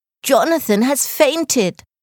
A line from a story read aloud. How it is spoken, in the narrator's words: Blanca shouted